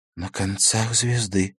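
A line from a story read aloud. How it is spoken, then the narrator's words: Whisper. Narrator (Russian): прошептала Беата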